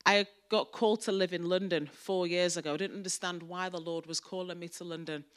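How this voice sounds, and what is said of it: Mancunian English accent. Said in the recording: “I'm from Manchester. As you can tell, my accent is a Mancunian accent.”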